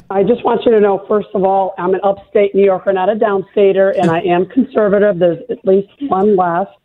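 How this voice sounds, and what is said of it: Hoarse, raspy voice. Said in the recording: “I've got my sexy voice on for you today. Sorry, I've got a little laryngitis.”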